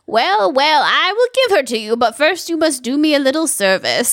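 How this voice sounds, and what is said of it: Witch character voice. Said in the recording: “A plus witch voice”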